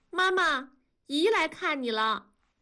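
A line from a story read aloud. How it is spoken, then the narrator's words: Loud announcement. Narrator (Chinese): 燕妮…大声的汇报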